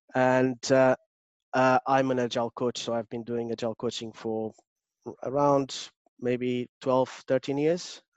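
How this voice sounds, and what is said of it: Strong Portuguese accent. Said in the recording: “I still have a very strong Portuguese accent”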